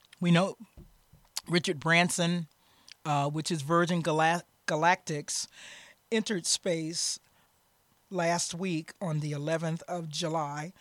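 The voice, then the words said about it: Deeper voice from a cold. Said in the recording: “I have a little bit of a cold, so I will sign a little deeper today”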